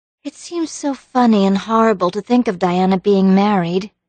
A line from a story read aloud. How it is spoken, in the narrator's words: sighed Anne